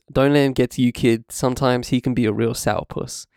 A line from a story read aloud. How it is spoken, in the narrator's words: Auerbach chuckled